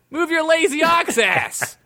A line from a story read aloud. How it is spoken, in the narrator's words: yelled Mitch again out the window